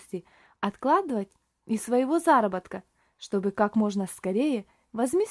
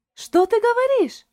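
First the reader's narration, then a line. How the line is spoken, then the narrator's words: Surprised exclamation. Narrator (Russian): воскликнула Шарлотта и от удивления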